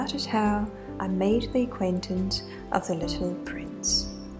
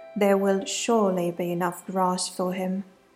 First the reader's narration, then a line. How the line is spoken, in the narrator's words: I said